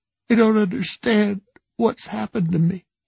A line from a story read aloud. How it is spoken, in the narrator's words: he sobbed